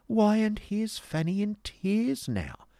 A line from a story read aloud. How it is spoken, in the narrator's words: exclaimed Miss Price, as if in fresh amazement